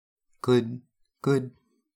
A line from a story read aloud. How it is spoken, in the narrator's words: Merlin stammered, his voice high in his throat